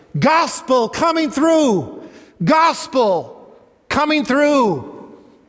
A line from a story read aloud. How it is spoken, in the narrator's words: we should be shouting